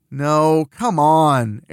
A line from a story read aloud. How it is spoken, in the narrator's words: Ariel groans